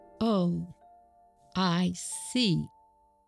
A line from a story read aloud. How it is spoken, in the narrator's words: said Mrs